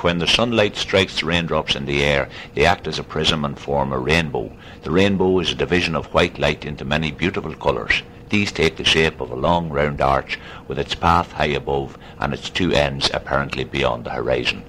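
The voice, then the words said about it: Flat working-class urban Sligo accent. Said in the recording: “the urban accent in Sligo, is a much flatter accent like that ... It's a more working-class urban Sligo accent”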